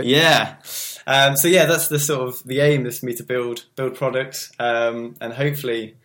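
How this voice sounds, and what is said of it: Refined English accent. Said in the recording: “The English accent to us sounds very refined ... High class”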